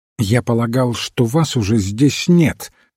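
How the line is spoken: Unusually sharp tone. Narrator (Russian): сказал отец Браун необычным для него резким тоном

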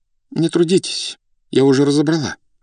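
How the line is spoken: Trembling voice from behind. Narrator (Russian): сказала за спиной дрогнувшим голосом Зинаида Дмитриевна

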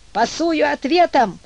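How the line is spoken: Shouted, little imp. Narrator (Russian): закричал чертенок

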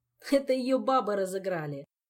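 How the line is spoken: Giggling. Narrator (Russian): сообщил он, хихикая в очередной раз

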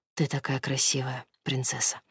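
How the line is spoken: Soft whisper. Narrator (Russian): шепчет негромко

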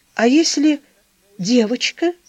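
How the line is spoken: Timid, after a pause. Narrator (Russian): Помолчав, робко говорила

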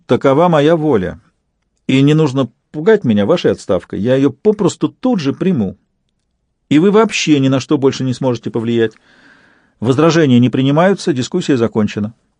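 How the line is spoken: Peremptory tone. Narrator (Russian): и добавила непререкаемым тоном

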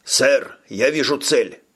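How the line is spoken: Shouting. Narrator (Russian): крикнул он

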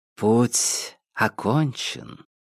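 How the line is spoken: Quiet, echoing. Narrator (Russian): тихо сказала снежная королева, и голос ее потонул в эхе, отражавшемся от холодных стен

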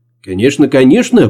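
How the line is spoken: Quick agreement. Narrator (Russian): быстро согласилась Нина

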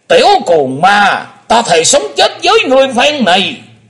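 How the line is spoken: Old man's hateful shout. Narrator (Vietnamese): lão nhân lùn béo quất hận quát lên lòng lòng

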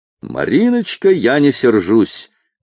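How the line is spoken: Feigned cheerful shout. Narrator (Russian): притворно весело крикнул ей вдогонку Федот

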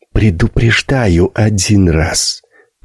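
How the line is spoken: Hissing. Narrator (Russian): прошипела Карина Стоянова

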